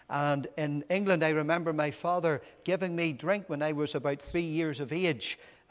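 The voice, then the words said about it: Northern Irish accent. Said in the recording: “You'd hardly believe that when you hear the Northern Ireland accent.”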